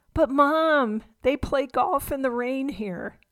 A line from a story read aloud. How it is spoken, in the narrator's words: Scott pleaded